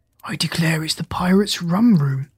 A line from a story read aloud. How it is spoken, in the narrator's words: said Jip, in a whisper